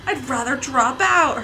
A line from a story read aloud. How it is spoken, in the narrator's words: Herbert said loudly